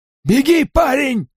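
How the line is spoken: Shouted. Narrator (Russian): крикнул он

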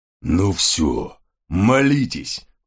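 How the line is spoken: Growling. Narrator (Russian): прорычал сержант Гавкинс

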